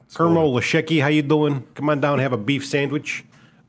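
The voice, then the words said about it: Put-on Midwest accent. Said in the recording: “They get the Midwest accent. It's golden.”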